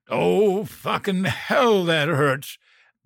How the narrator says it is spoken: He tried to pull the head of the pickaxe out of his foot and roared

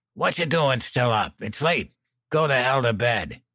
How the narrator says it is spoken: Dan croaked

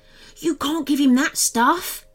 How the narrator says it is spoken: Maximus gasped

